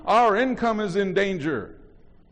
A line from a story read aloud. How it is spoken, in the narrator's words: They were not shouting